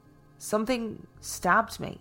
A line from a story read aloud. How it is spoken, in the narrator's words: he stammered